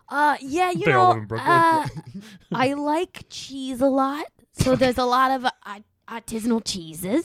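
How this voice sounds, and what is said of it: New York accent. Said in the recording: “I can tell by the accent”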